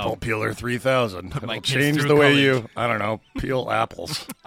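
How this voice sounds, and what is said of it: Low, sultry voice while recovering. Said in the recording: “How does my voice sound?... It's on the road to recovery... You sound like you should be doing late night infomercials... so sultry and seductive”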